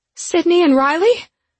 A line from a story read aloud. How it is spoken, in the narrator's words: I screamed out, now shaking so violently that nausea was taking hold